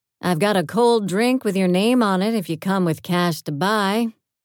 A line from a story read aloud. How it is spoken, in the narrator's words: I called out